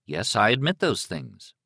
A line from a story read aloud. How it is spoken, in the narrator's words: Liz said evenly